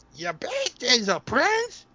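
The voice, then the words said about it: Donald Duck cartoon character voice. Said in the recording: “let me try my Donald voice”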